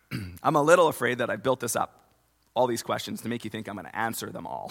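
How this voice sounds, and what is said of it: Strained, fading voice. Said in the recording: “I'm a little afraid that I'm losing my voice”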